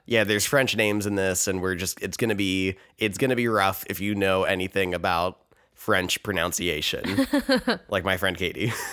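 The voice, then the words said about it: Raspy, nasal sick-sounding voice. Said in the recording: “I am a little sick. If my voice sounds a little bit raspy ... nasally ... how nasally and bad it is”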